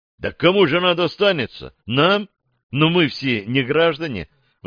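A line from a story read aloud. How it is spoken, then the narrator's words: Exclamation. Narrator (Russian): воскликнул Макс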